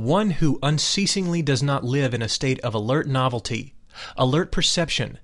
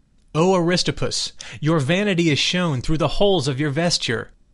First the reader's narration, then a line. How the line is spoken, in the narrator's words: he exclaimed in a loud voice